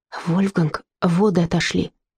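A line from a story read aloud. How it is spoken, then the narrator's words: Whisper. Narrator (Russian): Фрида прошептала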